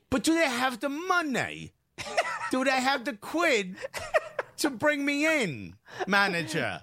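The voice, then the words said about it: Terrible put-on English accent. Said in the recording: “We're just doing a terrible English accent”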